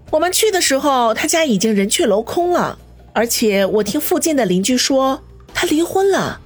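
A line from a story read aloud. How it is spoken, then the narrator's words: Wry laugh. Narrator (Chinese): 叶小南苦笑道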